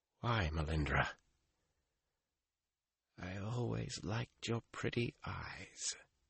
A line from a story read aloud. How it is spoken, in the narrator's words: she breathed, so faint he had to strain to hear